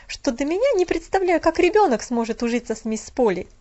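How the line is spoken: Sharp reply. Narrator (Russian): резко ответила она

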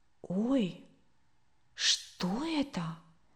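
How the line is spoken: Quiet, questioning. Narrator (Russian): тихо и вопросительно произнесла Катя

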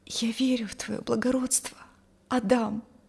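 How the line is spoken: Quiet. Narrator (Russian): Тихо произнесла она

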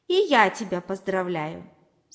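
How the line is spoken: Plain. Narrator (Russian): сказал помидорчик

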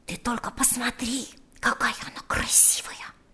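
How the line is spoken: Whispered by cradle. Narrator (Russian): шептал он возле ее кроватки

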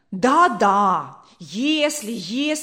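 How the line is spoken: Angry cry. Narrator (Russian): вскричала мать сердито

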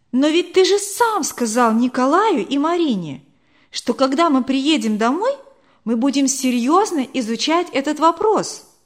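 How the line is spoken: Surprised exclamation. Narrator (Russian): удивленно воскликнула Вера

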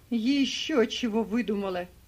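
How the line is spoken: Shouting. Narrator (Russian): кричит Скекс

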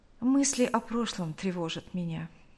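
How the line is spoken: Quiet, detached. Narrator (Russian): тихо сказала

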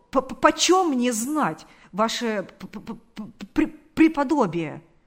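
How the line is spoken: Stammering. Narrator (Russian): сказал он, запинаясь

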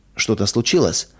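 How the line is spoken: Soft gentle question. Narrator (Russian): мягко спросила она

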